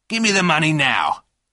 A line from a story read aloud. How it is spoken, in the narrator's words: said Bob Steele loudly